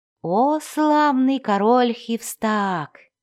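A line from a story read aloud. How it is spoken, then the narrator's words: Ingratiating, silky. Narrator (Russian): вкрадчиво начал он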